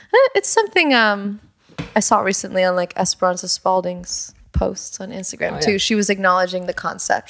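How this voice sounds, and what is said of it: Put-on British accent. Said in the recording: “why are you doing a British accent? ... You've been doing it this whole time.”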